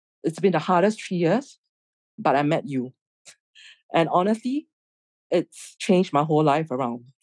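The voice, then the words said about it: Emotional, moved voice. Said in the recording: “I'm a little bit emotional”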